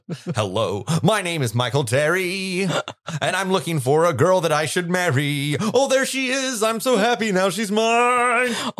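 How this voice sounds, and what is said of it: Theatrical modern-musical leading man voice. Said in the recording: “you always do this voice that's like every man in a modern musical ... It's called Modern Musical Man.”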